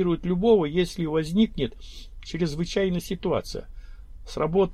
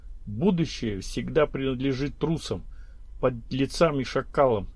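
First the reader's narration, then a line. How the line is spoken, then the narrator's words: Quiet, to himself. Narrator (Russian): тихо, словно самому себе сказал Журавлев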